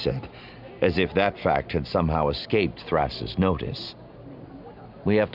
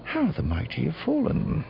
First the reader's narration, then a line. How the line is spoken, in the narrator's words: Thras said under his breath